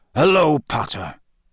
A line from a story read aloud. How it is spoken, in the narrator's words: growled Moody